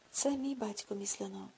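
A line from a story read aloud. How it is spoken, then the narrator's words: Quiet. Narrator (Ukrainian): тихо мовив Рудольф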